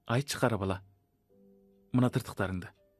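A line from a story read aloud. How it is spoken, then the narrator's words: Young woman, plain. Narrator (Kazakh): деді бойжеткен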